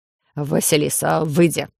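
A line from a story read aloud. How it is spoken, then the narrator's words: Gnome grumbling. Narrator (Russian): буркнул гном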